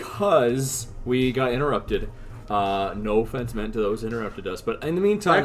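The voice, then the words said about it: Deep, sick-sounding voice. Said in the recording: “my voice has changed... they got me sick... now you have this cool fucking bass voice”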